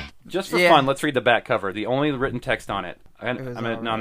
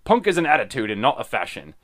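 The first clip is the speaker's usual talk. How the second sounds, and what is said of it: Exaggerated English accent. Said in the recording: “Should I read it in a bad English accent?”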